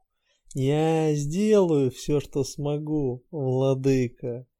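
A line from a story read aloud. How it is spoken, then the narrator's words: Smiling. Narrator (Russian): улыбнулась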